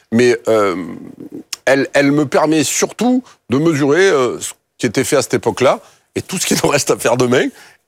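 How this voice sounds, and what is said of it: Strong Marseille French accent. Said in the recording (French): “mon authenticité s'entende toujours, pique un peu les yeux, mon accent, c'est un peu l'ail. Mais en fait, c'est d'où je viens”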